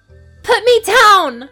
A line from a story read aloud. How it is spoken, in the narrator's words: she cried, as she found herself hauled into the air